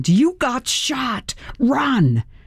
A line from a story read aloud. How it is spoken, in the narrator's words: my brain screamed